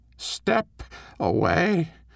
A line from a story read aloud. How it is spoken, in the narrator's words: the queen croaked